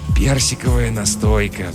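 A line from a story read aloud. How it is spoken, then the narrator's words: Sighing. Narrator (Russian): вздохнул Жихарь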